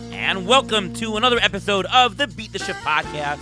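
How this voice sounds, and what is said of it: Slightly hoarse voice. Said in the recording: “slightly hoarse-voiced host ... I'm a little bit hoarse ... a little sore throat”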